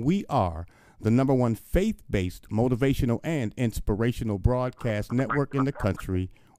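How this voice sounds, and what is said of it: Polished radio announcer voice. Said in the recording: “you teach me how to sound like that on the radio. You got that radio voice”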